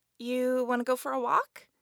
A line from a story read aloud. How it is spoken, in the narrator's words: Zilla cooed